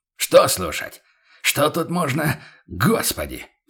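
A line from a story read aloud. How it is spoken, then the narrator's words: Exasperated exhale. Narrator (Russian): В сердцах выдохнул фон Зайденберг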